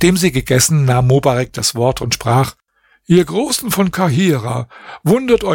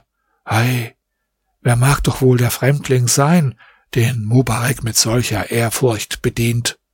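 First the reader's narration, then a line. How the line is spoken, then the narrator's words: Quiet amazed murmuring. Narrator (German): Die Großen von Kahira waren darüber sehr verwundert und sprachen leise untereinander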